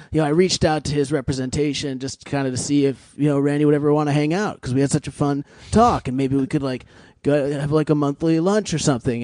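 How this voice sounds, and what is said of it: Imitates another person's voice. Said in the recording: “Mark Maron was very ill in that impression”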